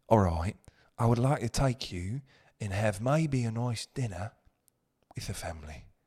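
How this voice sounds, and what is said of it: Put-on deep British accent. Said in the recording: “As soon as the British accent senses balls, it's not as nice... I think there's a deep tonality that with the British... is that Scott a little bit, a little Scottish?”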